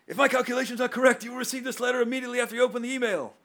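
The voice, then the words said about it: Doc Brown character impression. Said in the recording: “I know I don't do the best impressions ... read it in your best Doc Brown impression ... And to Christopher Lloyd, I'm sorry.”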